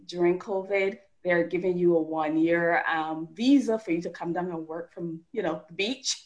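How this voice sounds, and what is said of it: Barbadian Caribbean accent. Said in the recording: “as you can tell from my accent, I'm not originally from the US. I'm from Barbados”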